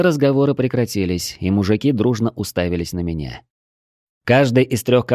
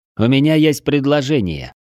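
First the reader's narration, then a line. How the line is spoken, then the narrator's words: Loud. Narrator (Russian): громко говорю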